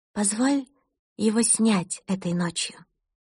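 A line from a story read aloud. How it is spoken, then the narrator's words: Whispered. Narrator (Russian): прошептала она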